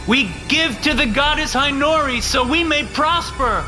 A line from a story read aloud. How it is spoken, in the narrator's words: the pledges shouted